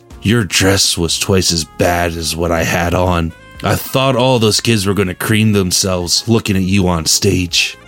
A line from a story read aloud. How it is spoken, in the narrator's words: he murmurs